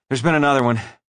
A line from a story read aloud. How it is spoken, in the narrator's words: he said breathlessly